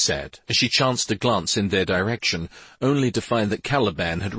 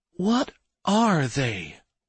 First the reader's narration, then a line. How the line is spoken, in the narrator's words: The tightness in her chest made her voice tremble